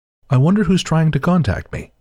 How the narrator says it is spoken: my aunt calmly asks aloud

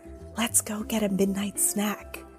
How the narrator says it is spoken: Jessica whispered

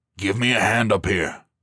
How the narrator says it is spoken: he grunted

